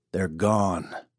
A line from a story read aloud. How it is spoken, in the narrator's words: growled Burdock